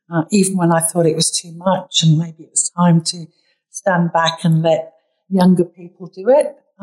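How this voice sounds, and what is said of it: British English accent. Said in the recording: “my British accent always gives it away”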